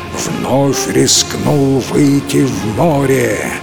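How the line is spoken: Dragon roaring. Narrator (Russian): взревел дракон

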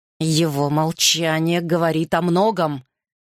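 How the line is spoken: Hissing. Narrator (Russian): прошипел Гарри

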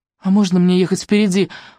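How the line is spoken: Pleading question. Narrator (Russian): умоляющим голосом спросил

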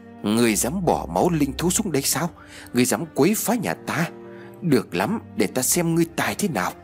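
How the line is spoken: Loud hissing. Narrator (Vietnamese): Nó rít lớn

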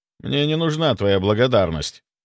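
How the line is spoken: Dry, curt. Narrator (Russian): сухо произнес я

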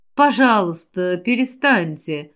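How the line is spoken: Gentle, soft. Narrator (Russian): мягко сказал покровитель жизни

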